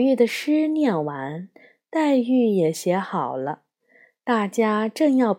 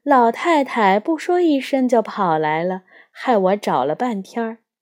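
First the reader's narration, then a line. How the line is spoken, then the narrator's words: Laughing. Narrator (Chinese): 凤姐儿 笑着 说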